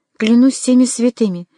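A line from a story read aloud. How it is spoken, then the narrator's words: Exclaiming Frenchman. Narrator (Russian): воскликнул один из французов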